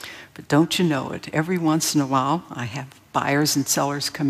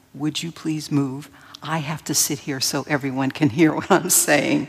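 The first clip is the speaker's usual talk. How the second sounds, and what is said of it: Overly sweet, polite voice. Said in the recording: “in a very nice voice”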